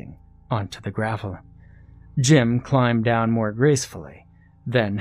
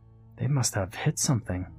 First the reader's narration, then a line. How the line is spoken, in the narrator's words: Alex said uneasily